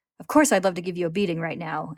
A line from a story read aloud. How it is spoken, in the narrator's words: Al snaps